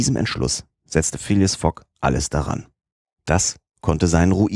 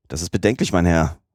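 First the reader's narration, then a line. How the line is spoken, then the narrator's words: Plain. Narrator (German): sagte der Kapitän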